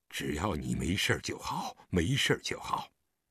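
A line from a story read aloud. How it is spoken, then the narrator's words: Trembling voice. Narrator (Chinese): 狄仁杰颤声道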